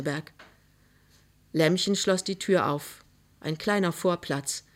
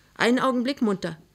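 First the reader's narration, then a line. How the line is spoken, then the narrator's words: Called out. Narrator (German): rief Emma Mörschel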